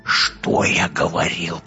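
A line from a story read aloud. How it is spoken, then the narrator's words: Whisper. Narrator (Russian): прошептал Фельдфебель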